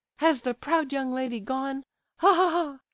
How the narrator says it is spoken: She laughed hysterically

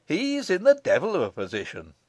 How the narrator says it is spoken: assented Michael dryly

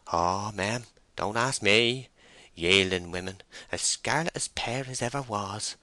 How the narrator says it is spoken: groaned Henry under his breath

